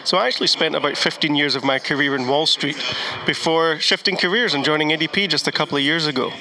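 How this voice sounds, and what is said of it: Scottish accent. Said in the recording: “people are asking about the accent... back in your home country in Scotland”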